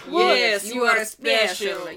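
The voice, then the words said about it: Put-on Russian accent. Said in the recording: “I love that Russian accent that you use.”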